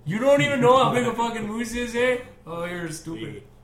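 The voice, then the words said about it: Put-on Canadian accent. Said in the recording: “it's my Canadian accent”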